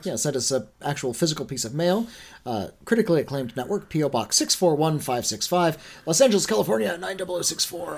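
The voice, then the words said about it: Hoarse, strained voice. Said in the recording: “I'm losing my voice. ... dying.”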